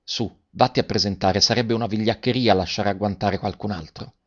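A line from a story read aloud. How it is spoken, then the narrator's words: Quiet speech. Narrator (Italian): Garrone che disse piano a Garoffi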